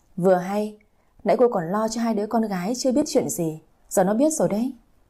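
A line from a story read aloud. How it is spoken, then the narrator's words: Cold smirk. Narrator (Vietnamese): Bà nội ... cười nhạt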